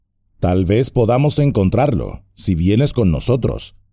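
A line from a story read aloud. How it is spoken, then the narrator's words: Plain. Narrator (Spanish): dijo Frodo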